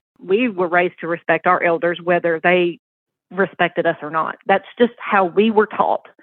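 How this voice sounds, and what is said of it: Southern US accent. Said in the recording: “I was raised in the South, obviously. I'm sure you can hear it in my accent.”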